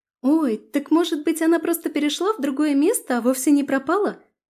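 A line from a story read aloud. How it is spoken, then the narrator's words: Joyful. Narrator (Russian): радостно сказала Таня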